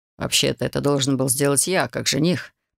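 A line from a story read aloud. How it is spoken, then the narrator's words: Grumbled. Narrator (Russian): проворчал Гарлан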